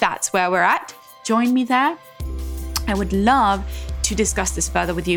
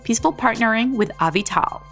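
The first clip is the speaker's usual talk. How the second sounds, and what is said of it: Put-on American accent. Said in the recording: “Do you like my American accent? ... I'm saying it like an American.”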